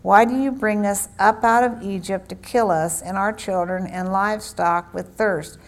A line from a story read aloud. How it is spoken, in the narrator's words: the people thirsted therefore for water, and the people murmured against and said